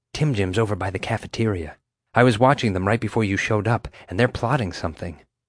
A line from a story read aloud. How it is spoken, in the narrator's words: whispered